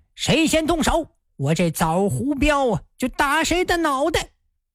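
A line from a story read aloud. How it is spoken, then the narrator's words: Loud shout. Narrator (Chinese): 徐芳 高声喝道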